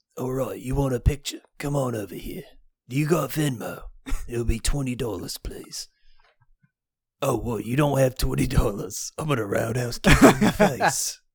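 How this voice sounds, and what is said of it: Jason Statham impression. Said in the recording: “you could be a Jason Statham impersonator”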